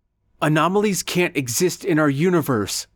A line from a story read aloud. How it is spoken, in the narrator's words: blurted out Jake frantically